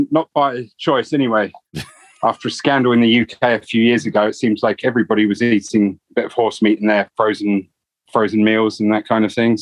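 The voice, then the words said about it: British London accent. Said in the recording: “you're originally from the UK. That's where that accent's from. ... London.”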